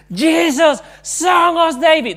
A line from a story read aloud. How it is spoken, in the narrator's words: Bartimaeus was shouting with all his passion